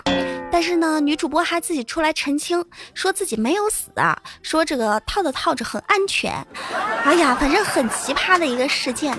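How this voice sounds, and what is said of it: Pleasant voice with Zhejiang accent. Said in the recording (Chinese): “声音真好听，还带着浙江的口音，超可爱。”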